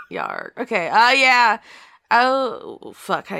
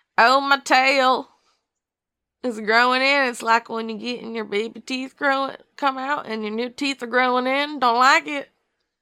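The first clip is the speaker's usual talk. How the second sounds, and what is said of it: Attempted southern US accent. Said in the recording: “how do you do a southern accent?”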